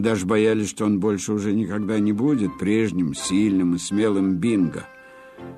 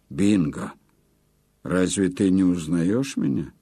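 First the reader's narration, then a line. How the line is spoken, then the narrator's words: Calm. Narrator (Russian): сказал спокойно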